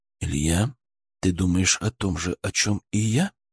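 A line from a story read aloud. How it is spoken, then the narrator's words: Near-whisper question. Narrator (Russian): почти шепотом спросил Мышкин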